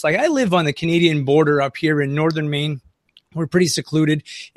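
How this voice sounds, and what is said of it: Franco-American accent. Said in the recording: “my accent i'm a little franco-american also”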